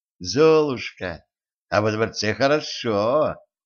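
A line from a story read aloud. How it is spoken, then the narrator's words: Sweet voice. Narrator (Russian): сладким голосом сказала она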